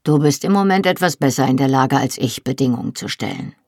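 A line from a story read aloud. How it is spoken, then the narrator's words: Plain. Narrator (German): sagte er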